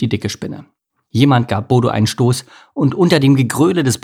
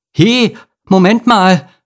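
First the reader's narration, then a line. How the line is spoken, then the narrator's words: Stammering. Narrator (German): stammelte Bodo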